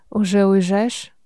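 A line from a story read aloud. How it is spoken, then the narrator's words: Hoarse. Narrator (Russian): Хрипло произношу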